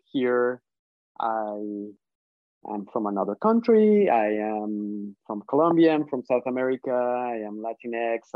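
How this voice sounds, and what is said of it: Colombian Spanish accent in English. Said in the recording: “I have an accent. English is not my first language.”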